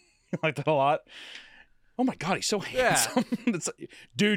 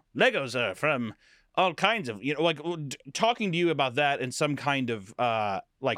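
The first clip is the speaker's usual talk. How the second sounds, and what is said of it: Old-fashioned 1950s-style voice. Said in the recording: “your accent is so cool... I wish we still spoke like that... live in the 50s... sound like Donner from Rudolph the Red-Nosed Reindeer”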